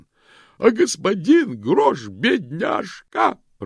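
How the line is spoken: Woman sobbing. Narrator (Russian): прорыдала женщина

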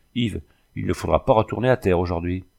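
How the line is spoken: Brusque commanding tone. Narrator (French): je lui dis d'un ton de commandement brusque

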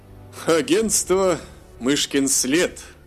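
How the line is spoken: Laughing doctor. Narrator (Russian): засмеялся доктор

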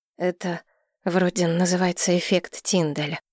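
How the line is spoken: Quiet. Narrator (Russian): поведала я тихо

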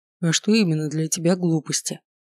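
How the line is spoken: Quiet clarifying question. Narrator (Russian): тихо уточнил Холодов

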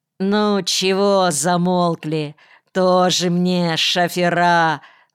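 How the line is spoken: Contemptuous drawl. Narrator (Russian): презрительно протянул Земсков

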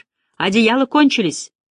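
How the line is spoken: Shouted reply. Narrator (Russian): крикнул кто-то в ответ

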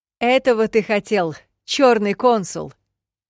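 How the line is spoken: Yelling over rain. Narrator (Russian): заорала я, стараясь перекричать дождь

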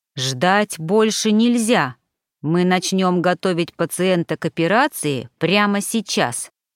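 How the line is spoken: Plain. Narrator (Russian): сказала Ритва

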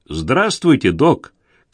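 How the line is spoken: Shouting. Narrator (Russian): крикнул Алекс

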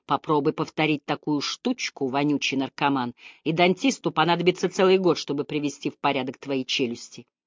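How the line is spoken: Hissed. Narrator (Russian): Я прошипел

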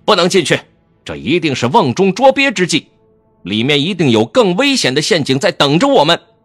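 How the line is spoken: Urgent loud shout. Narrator (Chinese): 苏舍忙高声喝道

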